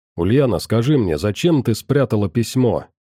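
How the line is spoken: Stern question. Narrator (Russian): строго спросил ее я

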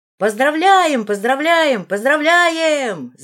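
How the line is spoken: Crowd shouting. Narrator (Russian): закричали студенты

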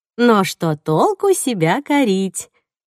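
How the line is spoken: Cheerful. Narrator (Russian): бодро сказала леди Лукреция

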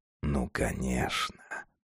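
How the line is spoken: Quiet. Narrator (Russian): тихо сказал он

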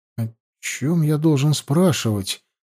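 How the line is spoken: Entranced mutter. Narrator (Russian): завороженно пробормотал Аюр

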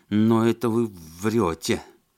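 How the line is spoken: Forced out with difficulty. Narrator (Russian): с трудом выдавил Сергеев

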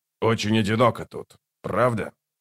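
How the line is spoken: Snorting. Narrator (Russian): Скрипач хмыкнул

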